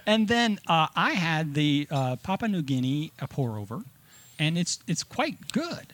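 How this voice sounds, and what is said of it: Cuban-accented pronunciation. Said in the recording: “Are you trying to say Papua New Guinea with a Cuban accent?”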